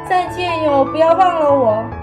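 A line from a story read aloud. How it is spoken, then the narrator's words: Shouting farewell. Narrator (Chinese): 他喊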